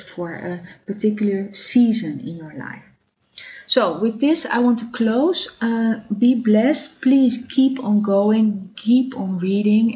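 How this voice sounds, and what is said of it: Non-native English accent. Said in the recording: “I'm sorry for my accent. I'm trying to learn English better... mind my accent”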